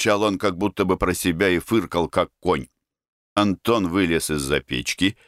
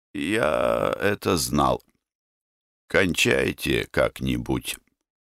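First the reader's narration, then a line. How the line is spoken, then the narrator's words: Muffled dull voice. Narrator (Russian): сказал я райпродкомиссару глухо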